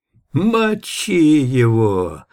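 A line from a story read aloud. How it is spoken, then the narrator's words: Hoarse wheeze from behind. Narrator (Russian): просипел кто-то сзади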